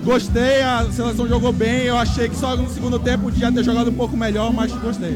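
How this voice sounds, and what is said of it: Regional Brazilian accent from Belém. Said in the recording (Portuguese): “eu vi que sotaque não é daqui”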